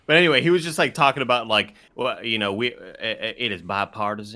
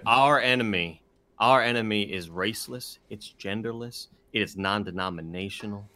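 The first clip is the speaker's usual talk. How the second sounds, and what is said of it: Imitates another person's voice. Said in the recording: “This isn't a good impression.”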